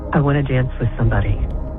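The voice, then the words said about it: Sexy, sultry voice. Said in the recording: “you said it in such a sexy voice.”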